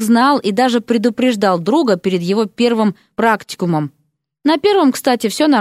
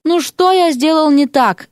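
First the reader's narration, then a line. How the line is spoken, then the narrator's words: Moaning. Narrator (Russian): стонал он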